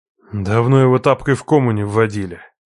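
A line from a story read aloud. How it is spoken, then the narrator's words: Grumbled. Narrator (Russian): пробурчал Хасан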